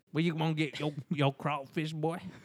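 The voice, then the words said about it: Put-on New Orleans accent. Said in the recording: “It's a shitty New Orleans accent.”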